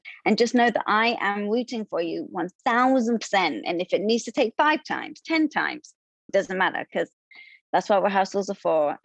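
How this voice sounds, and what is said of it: Speaks with an adorable accent. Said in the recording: “with that accent, how can I not? It's the most adorable thing.”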